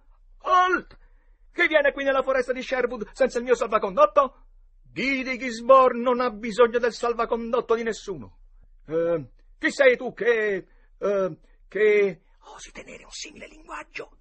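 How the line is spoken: Shouted. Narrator (Italian): Tom gridò

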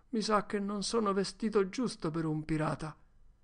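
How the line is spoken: Regretful. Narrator (Italian): disse lui con un tono di rimpianto nella voce

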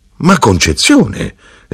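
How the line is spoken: Widow's exclamation. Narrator (Italian): esclamò la vedova

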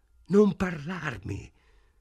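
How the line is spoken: Woman's voice choked with contempt. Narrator (Italian): rispose lei con voce strozzata dal disprezzo

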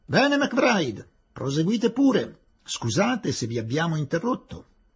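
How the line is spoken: Authoritative shout. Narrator (Italian): gridò in tono autoritario

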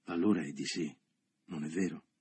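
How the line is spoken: Murmured. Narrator (Italian): egli mormorò

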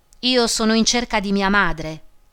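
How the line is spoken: Plain. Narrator (Italian): rispose

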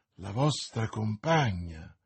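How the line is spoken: Exclaiming. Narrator (Italian): esclamò D'Artagnan, facendosi più smorto del velo bianco della sua amante

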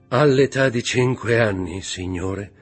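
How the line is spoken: Interjected with a sigh. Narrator (Italian): intervenne con un sospiro

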